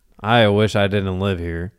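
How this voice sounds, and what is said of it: Impression of Salem the cat. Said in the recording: “Can you do Sabrina the Teenage Witch? ... I can do the cat. ... Salem? ... I think he might sound like me. ... I've always felt like he had a deep voice.”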